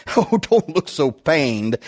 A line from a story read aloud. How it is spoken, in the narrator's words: Emmanuel laughed reassuringly